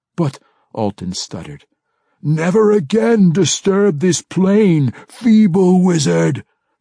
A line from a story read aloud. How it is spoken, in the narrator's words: the yokel roared